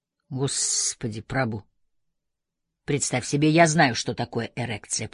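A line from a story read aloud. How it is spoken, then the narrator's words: Grumbled. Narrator (Russian): проворчал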